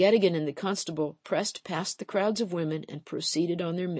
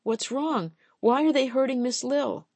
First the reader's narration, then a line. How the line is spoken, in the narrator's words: their children asked